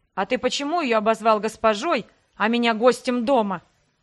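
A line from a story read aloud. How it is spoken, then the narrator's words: Indignant blurt. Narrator (Russian): возмущенно выпалил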